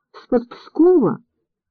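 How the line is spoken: Calling out woman. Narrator (Russian): окликнула женщина

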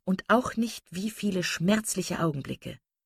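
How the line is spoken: Lowered voice. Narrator (German): sagte Marian mit gesenkter Stimme

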